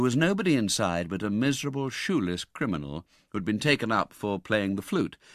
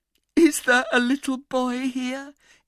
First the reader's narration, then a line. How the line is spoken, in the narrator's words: inquired Nancy with a preliminary sob